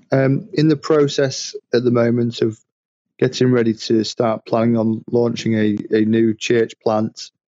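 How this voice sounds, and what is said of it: British accent. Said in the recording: “cool accent ... From the UK.”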